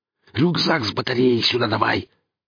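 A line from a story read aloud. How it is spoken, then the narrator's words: Angry hiss. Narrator (Russian): зло прошипел Гриф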